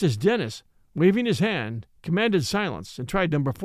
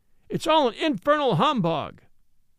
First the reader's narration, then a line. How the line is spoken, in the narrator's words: A boy in the gallery cried in a loud tone